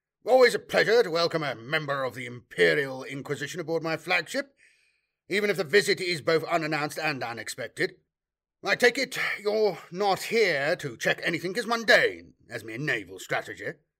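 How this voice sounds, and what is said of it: Clipped aristocratic accent, dry mocking tone. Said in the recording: “in the tell-tale clipped accent of the hereditary Navy aristocracy class ... concealed a dry, slightly mocking tone”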